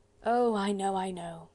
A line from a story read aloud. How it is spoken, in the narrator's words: he rejoined, with that short deprecatory sigh of his